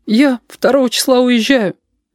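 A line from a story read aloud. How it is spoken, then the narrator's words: Thin, plaintive voice. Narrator (Russian): сказала Сашка, и сама поразилась, как тонко и жалобно прозвучал ее голос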